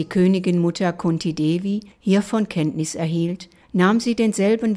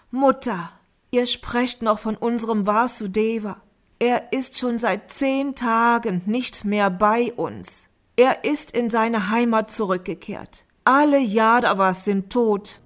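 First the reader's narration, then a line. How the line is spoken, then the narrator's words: Groaning through sobs. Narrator (German): Dharmaraja stöhnte unter Schluchzen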